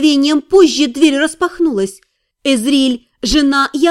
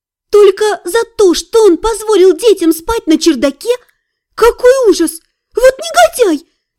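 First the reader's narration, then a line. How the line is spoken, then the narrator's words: Exclaiming. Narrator (Russian): воскликнула Эзриль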